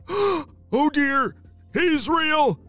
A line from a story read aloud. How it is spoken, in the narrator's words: Derek shouted as loud as he could